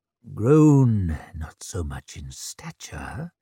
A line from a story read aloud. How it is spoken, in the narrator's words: he breathed